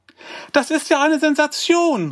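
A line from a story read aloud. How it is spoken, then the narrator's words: Calling out excitedly. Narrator (German): rief sie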